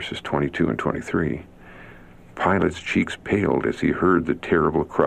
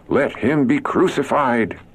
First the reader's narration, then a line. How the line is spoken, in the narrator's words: they cried out all the more, saying